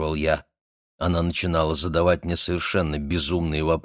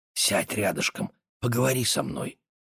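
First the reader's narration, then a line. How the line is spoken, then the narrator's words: Young woman whispering. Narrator (Russian): немецкая девушка шептала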